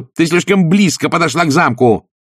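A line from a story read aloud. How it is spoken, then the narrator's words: Barking, harsh. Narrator (Russian): рявкнула Пердита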